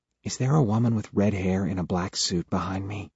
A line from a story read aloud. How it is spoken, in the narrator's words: Sarah whispers